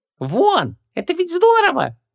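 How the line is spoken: Squeaked. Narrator (Russian): пискнул Хубаксис

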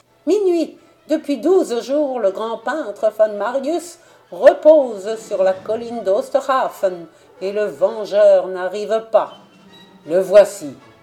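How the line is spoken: Exclamation. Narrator (French): s'écria Kappelmans

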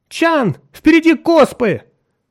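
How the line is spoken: Sudden shout. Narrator (Russian): неожиданно закричала Нарна

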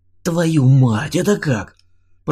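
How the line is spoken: Astonished breath. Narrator (Russian): пораженно выдохнул Слава

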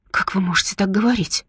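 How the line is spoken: Sharp whisper. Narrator (Russian): резким шепотом отвечает

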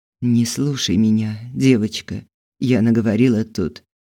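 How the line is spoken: Calm whisper. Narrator (Russian): Когда Светлана Андреевна успокоилась, она прошептала

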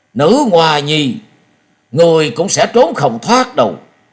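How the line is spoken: Angry roar. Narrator (Vietnamese): Gió Đang Cuồng Đạo nổi giận gầm lên một tiếng và nói

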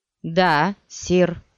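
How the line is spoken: Plain. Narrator (Russian): сказал Биджас

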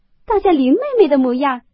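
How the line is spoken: Laughing. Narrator (Chinese): 史湘云接着笑道

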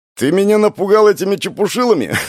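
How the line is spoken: Sincere laughter. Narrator (Russian): Макар искренне рассмеялся

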